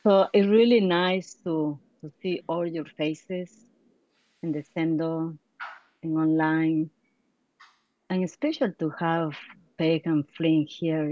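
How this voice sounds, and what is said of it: Strong non-native accent. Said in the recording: “I have a strong accent, so I'm going to go slow because my tendency is going fast”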